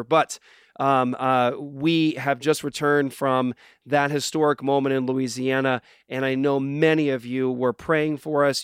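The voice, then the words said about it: Hoarse, raspy voice. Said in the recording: “excuse my voice. It's unfortunate for this very important show. My voice sounds like I've swallowed sandpaper.”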